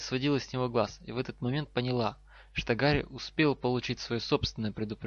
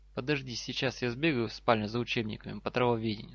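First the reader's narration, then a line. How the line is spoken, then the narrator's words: Plain. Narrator (Russian): сказал Гарри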